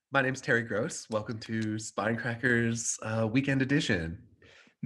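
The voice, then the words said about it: Imitates public radio host voice. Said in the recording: “Can anyone do their best NPR voice? ... That was pretty much it for me.”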